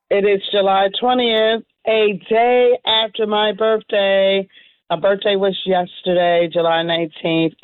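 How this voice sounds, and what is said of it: Slightly hoarse voice. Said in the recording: “I am a little hoarse from my birthday activities. A little hoarse.”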